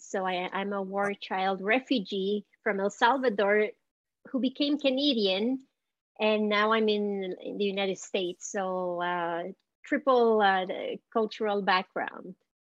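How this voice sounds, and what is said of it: Slight Montreal Canadian accent. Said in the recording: “I detect a little bit of a Montreal accent, Canadian yes... the accent is from Montreal. It's a mixture of French with English and Spanish.”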